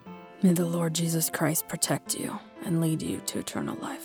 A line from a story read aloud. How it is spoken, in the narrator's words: After a long pause, she whispers